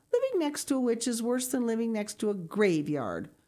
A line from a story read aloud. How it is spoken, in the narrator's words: grumbled Mrs